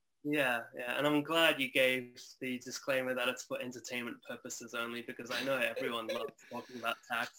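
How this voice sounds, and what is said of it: Slight Australian accent. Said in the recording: “you used to live in Australia. So, and I can hear that in your accent as well a little bit”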